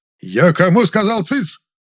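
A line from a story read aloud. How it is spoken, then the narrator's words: Barking shout. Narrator (Russian): Опять гаркнул боевой Герасим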